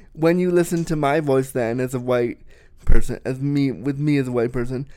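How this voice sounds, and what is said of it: Canadian accent. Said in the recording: “you sound like somebody with a Canadian accent.”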